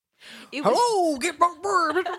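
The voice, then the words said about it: Big Thunder Mountain Gold Rush voice. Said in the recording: “That's my Big Thunder Mountain right, impression. ... That kind of is a good impression of the ride. ... It's just Gold Rush. Like it's Gold Rush talk.”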